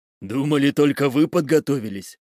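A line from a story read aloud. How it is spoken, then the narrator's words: Growl. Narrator (Russian): прорычал я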